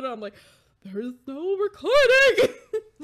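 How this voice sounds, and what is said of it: Screaming into the microphone. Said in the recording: “sorry for screaming into the microphone”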